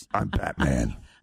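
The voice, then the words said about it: Gravelly Batman character voice. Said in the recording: “do you ever do the Batman voice?”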